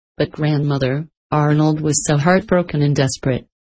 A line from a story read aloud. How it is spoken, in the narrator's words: she answered